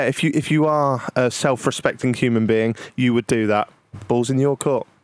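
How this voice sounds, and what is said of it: Usual voice. Nothing is said of it.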